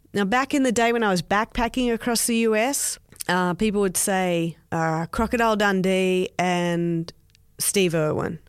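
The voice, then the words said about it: Australian accent. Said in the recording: “I love your accent ... I don't hear the Aussie accent at all where I live ... having an Australian accent”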